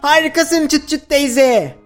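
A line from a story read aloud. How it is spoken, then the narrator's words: Shouting. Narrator (Turkish): diye bağırdı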